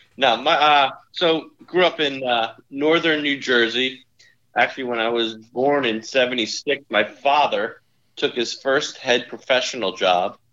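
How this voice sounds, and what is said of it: New Jersey accent. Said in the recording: “by your listening to your accent ... my parents moved to New Jersey ... that's where I got the accent”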